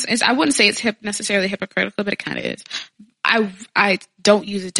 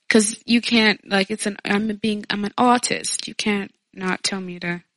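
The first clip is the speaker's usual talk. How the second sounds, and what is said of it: Fancy put-on British-sounding accent. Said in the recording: “This is not your accent either. Stop that. ... I just said artist, like, fancy. ... Speaking a British accent for the rest of us.”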